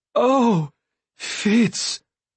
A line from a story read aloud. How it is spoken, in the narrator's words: the fool cried